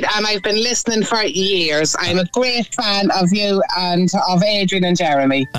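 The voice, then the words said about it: Irish Navan accent. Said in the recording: “Love that accent, by the way. ... The Navan accent. ... I love that Navan accent”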